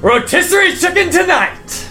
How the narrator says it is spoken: you just hear a shout that goes through the whole ship as he says

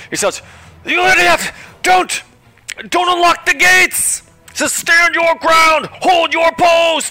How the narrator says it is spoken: he shouts

